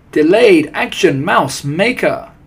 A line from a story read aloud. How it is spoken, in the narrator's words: they cried